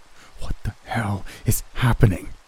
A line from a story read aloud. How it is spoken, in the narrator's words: Grunting my whisper, I asked